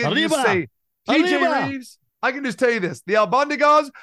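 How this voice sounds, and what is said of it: Usual voice. Nothing is said of it.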